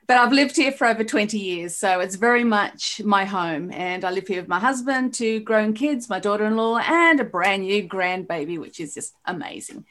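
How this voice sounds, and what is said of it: Mixed Australian and New Zealand accent. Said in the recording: “I'm actually a transplanted Australian ... my weird accent, because it's a combo”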